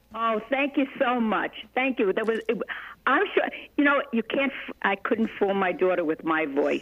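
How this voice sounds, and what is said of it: New York accent. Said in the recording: “I tried to get rid of some of that New York accent, but didn't help”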